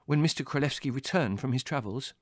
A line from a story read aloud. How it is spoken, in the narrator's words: I inquired eagerly